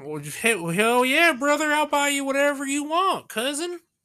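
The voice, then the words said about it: Stereotypical Southern accent. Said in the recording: “super uh, stereotype like Southern accent”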